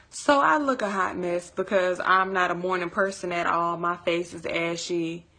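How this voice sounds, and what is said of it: Deep, just-woke-up voice. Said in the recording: “My voice is a little deep when I wake up”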